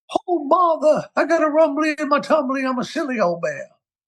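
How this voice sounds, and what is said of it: Winnie the Pooh impression. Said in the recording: “I do a killer Winnie the Pooh ... That's going to really give the guy that does the voice of Pooh a run for the money.”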